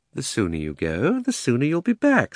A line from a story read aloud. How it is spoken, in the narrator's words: said Uncle Andrew cheerfully